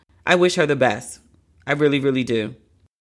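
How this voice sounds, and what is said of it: Emotional voice. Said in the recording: “I just got emotional.”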